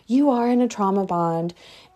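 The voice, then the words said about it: Condescending, demeaning tone. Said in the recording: “my voice just got really like, I sounded like I was like demeaning y'all.”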